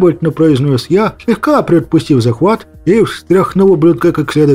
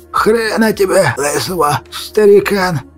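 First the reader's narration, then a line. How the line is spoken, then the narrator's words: Wheezing. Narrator (Russian): Просипел Аварьяшка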